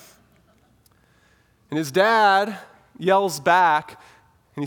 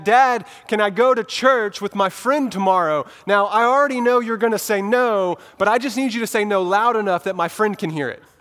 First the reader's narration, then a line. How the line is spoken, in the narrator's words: he yells across the house to his dad